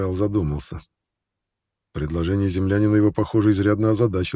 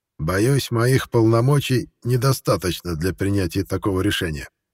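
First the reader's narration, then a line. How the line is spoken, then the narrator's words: Plain. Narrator (Russian): наконец ответил Трий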